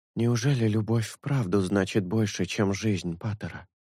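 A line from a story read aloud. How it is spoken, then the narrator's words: Muttering, breaking silence. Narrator (Russian): пробормотала Орхидея, наконец-то нарушив молчание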